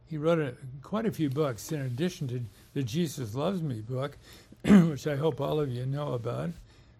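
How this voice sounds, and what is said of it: Strained, failing voice. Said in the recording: “I've got to take a drink or my voice is going out of me here.”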